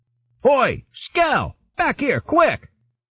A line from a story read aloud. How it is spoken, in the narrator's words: a note of uncertainty in the guard's voice as he shouted